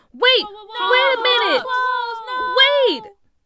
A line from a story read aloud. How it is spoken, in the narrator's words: They all started to scream